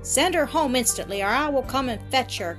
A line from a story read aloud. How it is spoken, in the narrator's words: cried the laird